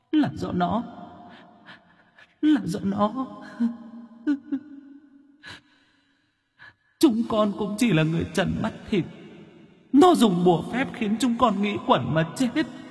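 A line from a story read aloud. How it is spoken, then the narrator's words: Ghostly sobbing. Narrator (Vietnamese): Vong hồn mẹ con mụ Cầm quỳ khóc thút thít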